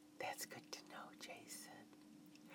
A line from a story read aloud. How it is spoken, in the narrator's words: I made sure he could feel my warm breath as I whispered into his right ear